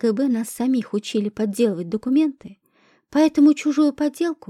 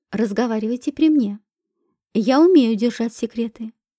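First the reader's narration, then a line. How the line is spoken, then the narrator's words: Calm voice. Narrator (Russian): спокойным голосом произнесла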